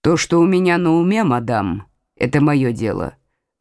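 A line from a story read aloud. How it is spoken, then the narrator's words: Rude tone. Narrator (Russian): ответил Карл грубым тоном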